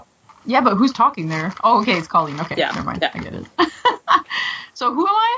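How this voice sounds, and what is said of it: Usual voice. Nothing is said of it.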